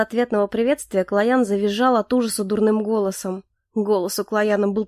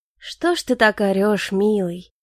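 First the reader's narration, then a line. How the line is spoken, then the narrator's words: Gentle question. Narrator (Russian): Ласково поинтересовался я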